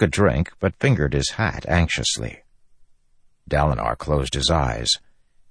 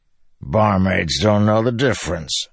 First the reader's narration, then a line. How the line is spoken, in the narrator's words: Bashan grumbled